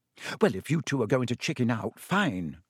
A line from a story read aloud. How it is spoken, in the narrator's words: she said